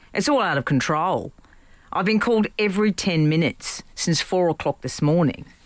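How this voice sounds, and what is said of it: Put-on Australian accent. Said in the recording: “I will do an Australian accent because I'm half Antipodean”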